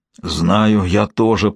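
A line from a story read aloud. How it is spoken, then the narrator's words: Hoarse reply. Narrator (Russian): прохрипел в ответ ее отец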